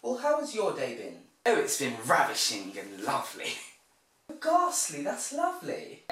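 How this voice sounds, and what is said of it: Mock posh English accent. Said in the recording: “speak posh ... I haven't heard someone talk posh before ... I've never seen them talk like”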